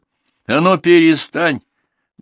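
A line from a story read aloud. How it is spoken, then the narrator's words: Loud command. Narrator (Russian): громко приказала Наталья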